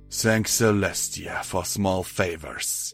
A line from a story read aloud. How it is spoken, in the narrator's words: he said with a deep sigh